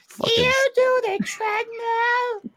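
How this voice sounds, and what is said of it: High-pitched put-on voice. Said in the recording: “I love the voice ... that was a high pitch ... doing that voice”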